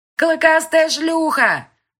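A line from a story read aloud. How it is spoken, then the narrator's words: Shout from a crowd. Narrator (Russian): крикнул кто-то в толпе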